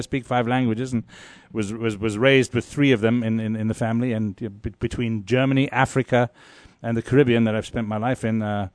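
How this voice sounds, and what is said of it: Mixed European-sounding foreign accent. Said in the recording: “I love your accent, by the way. ... French, German, Portuguese.”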